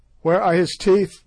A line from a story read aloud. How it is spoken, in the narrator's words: they shouted